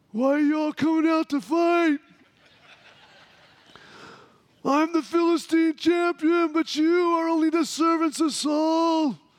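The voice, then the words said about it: Gruff taunting giant warrior voice. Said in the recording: “my best Goliath imitation. I think it probably sounded something like, you know, Braveheart or Goliath, Great Goliath, Braveheart, and Rocky all mixed together”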